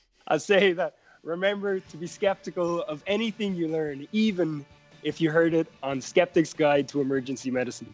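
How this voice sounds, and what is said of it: Mixed Canadian and Irish accent. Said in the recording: “your best merged Canadian A accent combined with your Irish accent”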